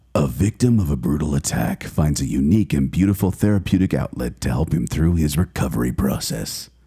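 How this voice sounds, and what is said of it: Movie trailer announcer voice. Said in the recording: “in my movie trailer voice.”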